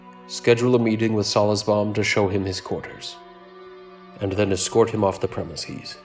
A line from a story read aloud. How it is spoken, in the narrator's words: The Lord said solemnly